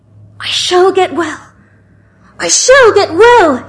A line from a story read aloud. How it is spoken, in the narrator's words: cried out